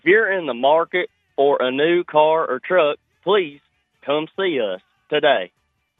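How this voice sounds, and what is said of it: Impression of Frank Fletcher. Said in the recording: “Pretty decent impersonation. ... Frank Fletcher”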